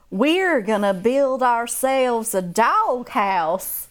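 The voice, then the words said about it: Put-on Southern accent. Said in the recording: “enamored with the Southern accent ... to see like how it sounded”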